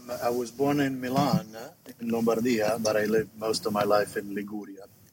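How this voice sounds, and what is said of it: Italian Genoese Ligurian accent. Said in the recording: “I think I got more the Genova Ligurian accent”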